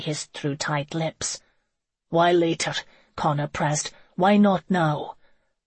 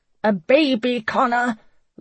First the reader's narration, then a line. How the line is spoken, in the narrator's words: Laurel shouted